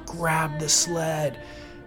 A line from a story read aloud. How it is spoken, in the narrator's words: I screamed again